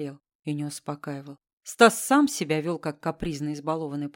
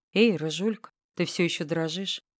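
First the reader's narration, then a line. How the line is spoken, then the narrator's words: Quiet. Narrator (Russian): тихо говорит он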